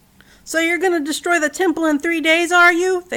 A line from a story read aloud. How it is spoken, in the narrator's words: yelled